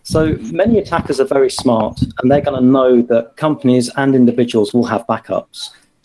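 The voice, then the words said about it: British accent. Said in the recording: “I can hear by your accent that you're from the UK.”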